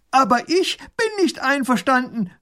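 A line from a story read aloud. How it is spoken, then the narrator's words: Calling across. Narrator (German): ruft er herüber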